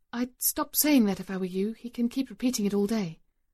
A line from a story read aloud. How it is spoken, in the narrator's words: murmur